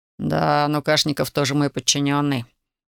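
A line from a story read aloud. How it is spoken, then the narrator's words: Grumbling. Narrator (Russian): буркнул Маразов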